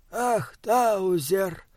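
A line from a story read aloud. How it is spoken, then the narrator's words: Sighing. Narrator (Russian): вздохнул он наконец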